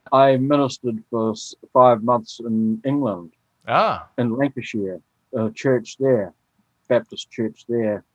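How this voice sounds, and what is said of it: Mild New Zealand accent. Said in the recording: “your accent is rather tame to my ear. His was a little thicker.”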